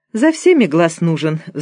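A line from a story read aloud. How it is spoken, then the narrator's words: Sighing. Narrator (Russian): вздохнула Ираида Сергеевна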